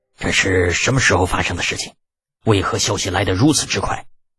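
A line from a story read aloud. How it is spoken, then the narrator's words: Calm, deep voice. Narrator (Chinese): 长孙无忌多少还能保持冷静，沉声问道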